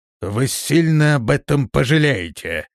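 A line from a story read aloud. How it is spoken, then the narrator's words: Menacing. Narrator (Russian): грозно произнес Лермонруил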